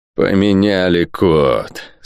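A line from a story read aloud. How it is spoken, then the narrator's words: Through gritted teeth. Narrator (Russian): сквозь зубы процедил лорд Спенсер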